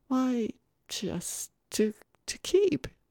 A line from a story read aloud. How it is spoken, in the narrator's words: he said hesitantly